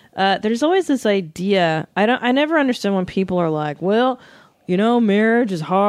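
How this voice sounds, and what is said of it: Usual voice. Nothing is said of it.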